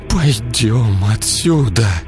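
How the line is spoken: Barely audible forced words. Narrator (Russian): Едва слышно выдавила из себя

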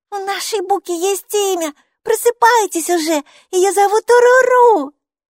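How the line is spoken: Puppy-like squeal. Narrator (Russian): Бука взвизгнула, как щенок

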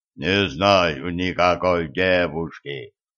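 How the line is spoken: Giant's booming, speech regained. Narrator (Russian): прогудел гигант, к которому внезапно вернулась речь

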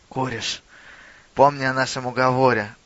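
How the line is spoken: Whisper. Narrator (Russian): прошептал он

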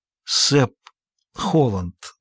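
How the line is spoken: Weak voice. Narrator (Russian): слабым голосом вымолвила она

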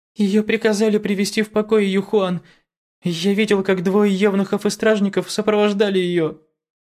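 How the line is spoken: Trembling voice. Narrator (Russian): Ши Тао дрожащим голосом проговорил

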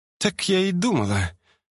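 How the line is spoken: Exhaling, annoyed or relieved. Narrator (Russian): выдохнула девушка то ли с досадой, то ли с облегчением

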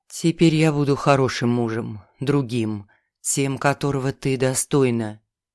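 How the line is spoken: Near whisper. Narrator (Russian): уже почти прошептал он

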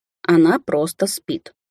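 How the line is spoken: Shocked muttering. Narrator (Russian): потрясенно пробормотал он

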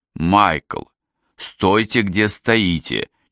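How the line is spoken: Almost pleading. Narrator (Russian): чуть ли не взмолился я

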